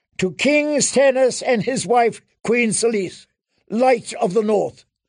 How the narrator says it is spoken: Sir Axel bellowed

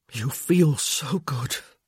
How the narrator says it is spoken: he said hoarsely

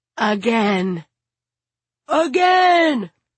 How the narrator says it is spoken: Bobo yells

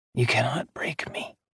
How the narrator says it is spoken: he whispered

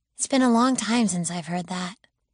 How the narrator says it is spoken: she said softly

